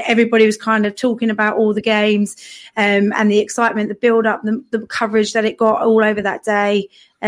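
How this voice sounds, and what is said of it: Hoarse, worn-out voice. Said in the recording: “My voice is gone... That's why your voice is gone.”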